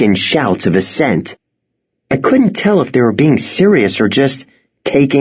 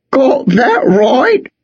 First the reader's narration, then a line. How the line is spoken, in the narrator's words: he said with a laugh